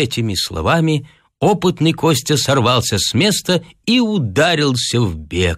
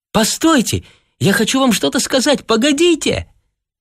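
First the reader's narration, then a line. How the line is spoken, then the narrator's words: Weak shout, girl. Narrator (Russian): слабо крикнула девушка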